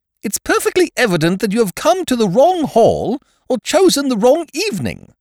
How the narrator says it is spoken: snapped Miss Ukridge, abruptly

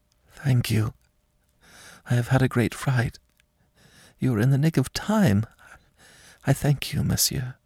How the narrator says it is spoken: in great surprise whispered

